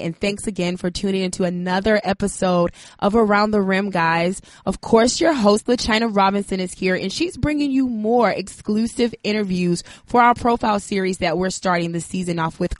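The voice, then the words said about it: Sick voice, sounds terrible. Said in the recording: “No, it is not some random dude. I know my voice sounds terrible considering I am battling some type of virus”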